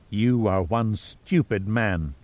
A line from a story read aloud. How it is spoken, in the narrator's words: she said coldly